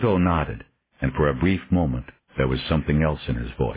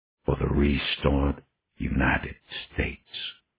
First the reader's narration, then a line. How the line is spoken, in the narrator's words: said softly, almost reverently